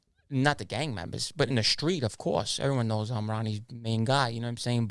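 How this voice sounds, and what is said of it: Italian-American accent. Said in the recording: “my accent, I told you, they were, like I said last time, they always loved the Italians”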